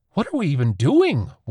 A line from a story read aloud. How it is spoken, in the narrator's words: one cried